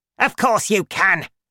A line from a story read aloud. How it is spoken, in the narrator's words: she shouted